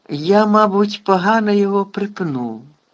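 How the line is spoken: Casual, shrugging. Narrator (Ukrainian): знизав плечима Гегрід

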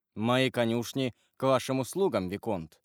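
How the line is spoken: Plain. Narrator (Russian): сказал Монте-Кристо

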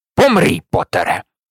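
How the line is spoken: Barking. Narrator (Ukrainian): гаркнув Северус

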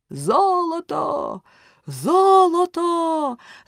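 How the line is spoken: Crowd shouting. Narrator (Ukrainian): закричали вони

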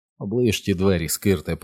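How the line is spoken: Muttered. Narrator (Ukrainian): пробурмотів Річі

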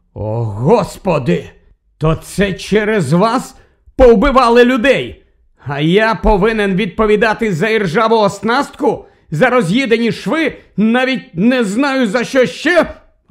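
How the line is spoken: Furious exclamation, prime minister. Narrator (Ukrainian): розлючено вигукнув прем'єр-міністр

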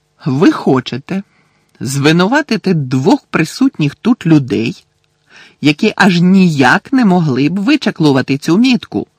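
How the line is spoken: Barked. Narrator (Ukrainian): гаркнув містер Кравч

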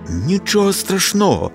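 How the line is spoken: Cheerful exclamation. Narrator (Ukrainian): бадьоро вигукнув Фершал

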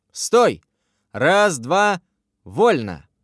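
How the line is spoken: Brisk barked command. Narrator (Russian): бодро рявкнула физкультурница

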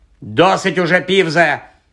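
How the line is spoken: Barked. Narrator (Ukrainian): гаркнула професорка МакГонагал

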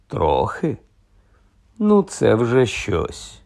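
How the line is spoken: Sigh. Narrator (Ukrainian): зітхнув Ронан

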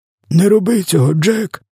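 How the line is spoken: Hoarse rasp. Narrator (Ukrainian): хрипів він

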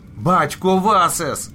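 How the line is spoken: Shout. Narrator (Ukrainian): закричав він

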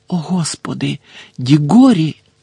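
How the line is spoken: Whisper. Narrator (Ukrainian): прошепотів Фадж

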